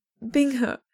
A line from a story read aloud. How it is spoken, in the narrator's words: Shenqingqiu says, voice choked back